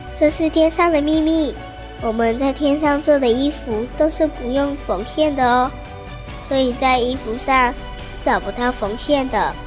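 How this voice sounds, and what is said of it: Soft, quiet whispering voice. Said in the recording (Chinese): “嫦娥摸摸小风铃的头，小声地说”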